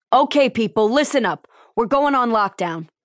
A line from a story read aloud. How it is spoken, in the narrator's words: Lieutenant Lopez barked